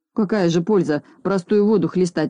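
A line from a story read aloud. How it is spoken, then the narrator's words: Sullen grumble. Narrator (Russian): угрюмо проворчал Скуперфильд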